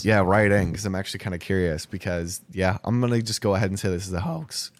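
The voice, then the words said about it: Cracking voice, recovering from cold. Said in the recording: “apologize for my voice cracking, by the way. I'm getting over a cold.”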